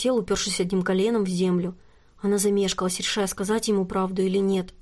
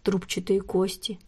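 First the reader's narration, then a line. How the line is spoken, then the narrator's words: Quiet, matter-of-fact. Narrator (Russian): тихо и буднично произнес он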